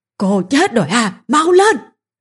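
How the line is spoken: Screaming. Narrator (Vietnamese): bà ta lại gào lên

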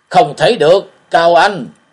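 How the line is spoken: Terrified group shouting. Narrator (Vietnamese): tiếng la hét kinh hãi cùng nổi dậy

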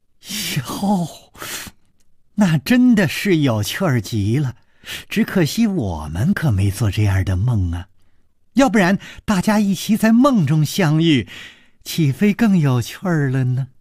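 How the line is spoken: Laughing. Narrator (Chinese): 柳无眉笑着说

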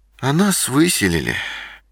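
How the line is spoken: Sad reply. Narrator (Russian): грустно ответила мама

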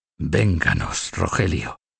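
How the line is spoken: Murmured. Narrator (Spanish): murmuró

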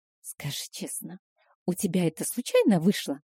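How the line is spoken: Conspiratorial whisper. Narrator (Russian): Понизив голос до шепота, будто нас могут подслушать, спросила Стэсси

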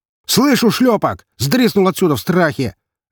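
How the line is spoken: Barking shout. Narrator (Russian): Рявкнул

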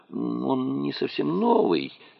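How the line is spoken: Mumbling. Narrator (Russian): пробормотал Кезим

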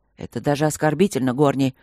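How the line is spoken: Barking. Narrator (Russian): рявкнул Вудхаус

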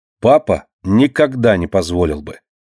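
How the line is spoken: Stern remark. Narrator (Russian): строго замечает Алина

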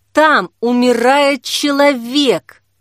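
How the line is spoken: Through clenched teeth. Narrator (Russian): проговорила Жанна сквозь зубы

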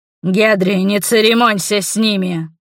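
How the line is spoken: Growled. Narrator (Russian): рыкнул Гюст

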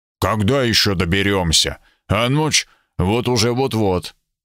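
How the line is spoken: Melancholy grumble. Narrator (Russian): Сэр Смит проворчал с тоской

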